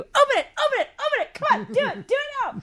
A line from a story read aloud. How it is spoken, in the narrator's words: start screaming